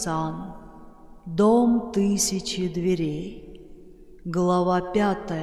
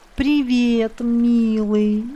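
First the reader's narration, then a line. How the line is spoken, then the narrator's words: Nasal drawl. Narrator (Russian): гнусаво протянул парень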